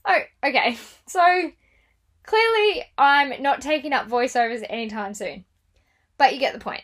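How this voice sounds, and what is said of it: Usual voice. Nothing is said of it.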